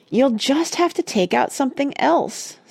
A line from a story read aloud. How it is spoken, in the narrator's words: sighed Mona